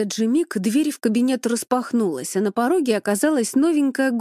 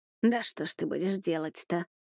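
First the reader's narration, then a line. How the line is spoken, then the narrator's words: Grumbled under breath. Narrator (Russian): Проворчала себе под нос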